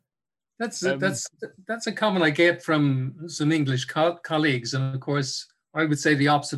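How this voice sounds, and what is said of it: Irish accent, soft dulcet tones. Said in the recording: “those dulcet tones and that Irish accent”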